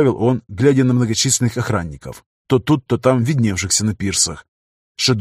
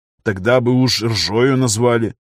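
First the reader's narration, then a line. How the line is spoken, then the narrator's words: Snorting. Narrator (Russian): хмыкнул Виктор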